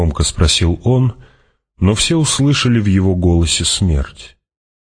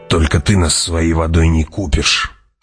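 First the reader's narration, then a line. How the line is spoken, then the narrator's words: Growling. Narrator (Russian): прорычал Джамис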